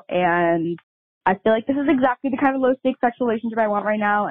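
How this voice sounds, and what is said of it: Very fast anxious speech. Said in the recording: “I'm talking so fast”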